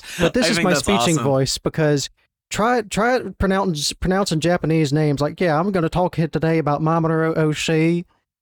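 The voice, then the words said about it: Southern American accent, toned down. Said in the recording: “You really were not kidding when you said you're in the South... this is me keeping the accent as like limited as possible”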